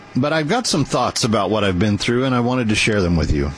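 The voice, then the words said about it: Speaking with a noticeable lisp. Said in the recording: “you sound different,... you're lisping. I am. I'm trying to get used to new teeth.”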